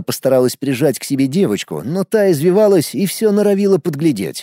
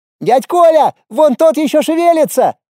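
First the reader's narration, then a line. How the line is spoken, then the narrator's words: Child shouting. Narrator (Russian): крикнул один из близнецов Паши и Вики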